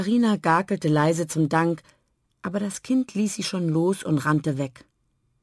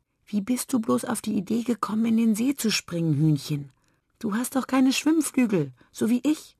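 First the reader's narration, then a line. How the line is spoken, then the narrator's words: Child whispering. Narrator (German): das Kind flüsterte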